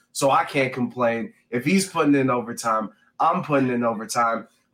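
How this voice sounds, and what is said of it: Slightly raspy voice. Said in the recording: “My voice is a little raspy. ... Got a little sick.”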